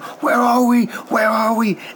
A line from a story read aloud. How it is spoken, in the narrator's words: Schreier's screaming at him